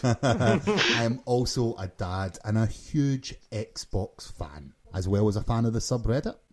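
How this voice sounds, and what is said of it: Scottish Glasgow accent. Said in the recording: “from Glasgow, Scotland, as you can probably tell by my accent ... Who doesn't love a Scotsman?”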